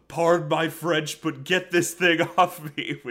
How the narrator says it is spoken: Patrick yells

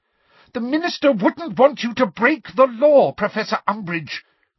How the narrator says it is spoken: cried Hermione

